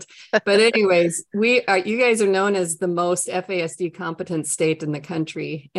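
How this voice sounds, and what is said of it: Minnesotan accent with long O's. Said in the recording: “everybody can tell down here that I'm from Minnesota with my long O's and my nice Norwegian accent”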